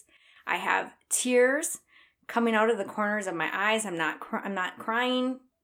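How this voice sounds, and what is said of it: Emotional, tight-throated voice. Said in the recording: “My throat is tightening up. You might be able to hear it in my voice.”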